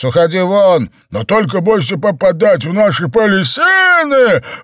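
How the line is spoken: Howled. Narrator (Russian): Взвыл угольщик

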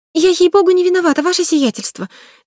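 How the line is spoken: Offended flustered babbling. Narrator (Russian): залепетала она, вспыхнув румянцем от обиды

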